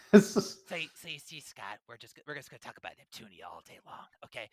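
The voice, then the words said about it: Imitates another person's voice. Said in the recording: “I just do my Will impression for the entire show.”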